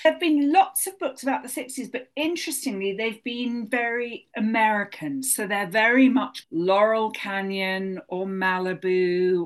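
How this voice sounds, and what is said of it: London English accent. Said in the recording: “as you can hear from my accent, I'm a naturalized American, but I was born and brought up in London”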